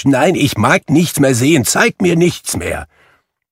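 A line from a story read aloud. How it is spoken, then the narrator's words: Distressed cry. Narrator (German): rief Scrooge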